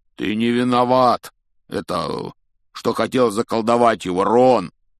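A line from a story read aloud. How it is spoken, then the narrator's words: Shouting over noise. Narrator (Russian): крикнул Хагрид, стараясь перекрыть глухой стук, с каким слизняки падали в таз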